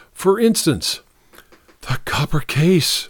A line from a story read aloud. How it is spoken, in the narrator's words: breathed Nicky visibly